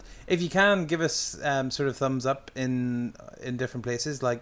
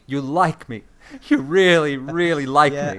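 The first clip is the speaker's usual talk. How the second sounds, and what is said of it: Sally Field impression. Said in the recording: “do an impression of Sally Field”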